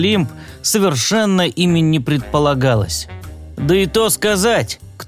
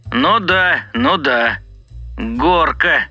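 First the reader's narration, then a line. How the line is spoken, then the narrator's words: Grumble. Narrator (Russian): проворчал начальник станции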